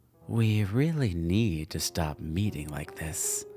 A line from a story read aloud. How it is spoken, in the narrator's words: Cordiva purred in her usual way